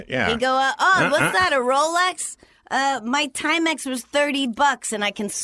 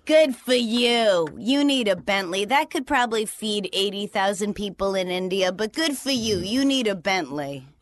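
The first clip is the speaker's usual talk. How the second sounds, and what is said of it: Imitated New Hampshire accent. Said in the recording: “that's your New Hampshire accent... that's his... Accent.”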